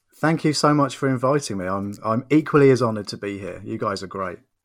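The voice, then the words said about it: English accent. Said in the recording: “having a person with a British accent ... Is my English accent good enough for you?”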